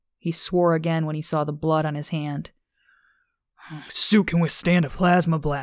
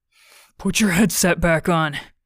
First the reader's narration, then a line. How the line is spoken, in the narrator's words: Sean said between gasps